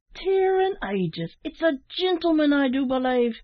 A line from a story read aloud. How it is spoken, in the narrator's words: cried Larry, with a look of surprise